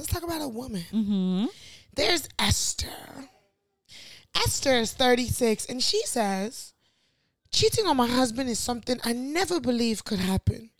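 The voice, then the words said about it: Posh Nigerian accent. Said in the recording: “With this accent. ... The accent. ... Your posh Niger accent.”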